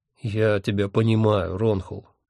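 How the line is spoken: Soft, gentle. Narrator (Russian): мягко сказал Хехельф

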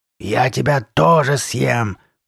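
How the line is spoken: Growl. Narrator (Russian): прорычала она

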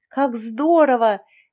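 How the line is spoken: Exclaiming. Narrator (Russian): воскликнула Яшка

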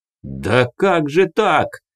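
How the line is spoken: Deeply hurt exclamation. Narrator (Russian): воскликнул уязвленный до глубины души Дарий

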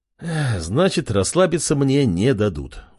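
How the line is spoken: Sigh. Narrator (Russian): вздохнул

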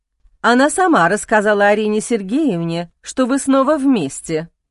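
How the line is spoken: Plain, nanny. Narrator (Russian): ответила няня

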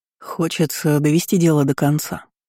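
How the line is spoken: Plain. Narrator (Russian): ответил Дрейк

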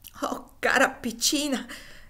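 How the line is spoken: Shaky voice, forced cheer. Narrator (Italian): esclamò Sinclair con voce malferma, a cui procurava però di dare un accento gioviale

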